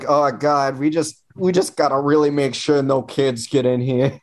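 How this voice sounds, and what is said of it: Put-on Chicago accent. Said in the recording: “why did I use like a Chicagoan accent?”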